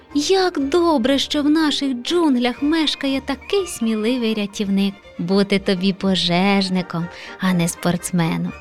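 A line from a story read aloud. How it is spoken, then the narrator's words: Encouraging. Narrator (Ukrainian): Підбадьорив леопардик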